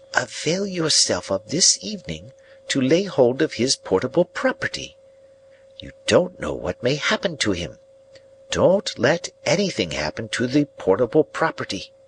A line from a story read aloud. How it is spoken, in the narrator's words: added in a solemn whisper